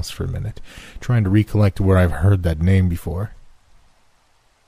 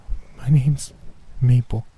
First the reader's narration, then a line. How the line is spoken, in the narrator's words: she said in a jittery voice